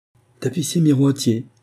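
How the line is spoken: Quick, brisk reply. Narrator (French): reprit-il vivement

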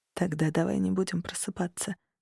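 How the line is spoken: Tender whisper in ear. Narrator (Russian): невыразимо ласково шепнул на ухо

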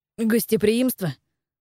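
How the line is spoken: Snorting. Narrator (Russian): фыркнул Марко

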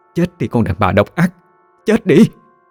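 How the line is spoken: Hate-filled repeated screaming. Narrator (Vietnamese): liên tục hét lên bằng cái giọng đầy căm hận

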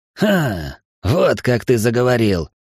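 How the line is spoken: Growled. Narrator (Russian): прорычал Эл

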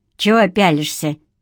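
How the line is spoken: Grumbling mutter. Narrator (Russian): буркнула она

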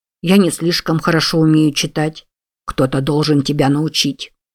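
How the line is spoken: Grumbling. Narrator (Russian): проворчал Джайлз

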